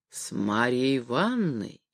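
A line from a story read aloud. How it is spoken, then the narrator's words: Drawn-out and solemn. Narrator (Russian): произносила Вера Антонна протяжно и торжественно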